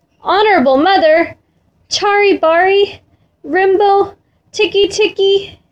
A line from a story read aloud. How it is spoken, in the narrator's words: gasped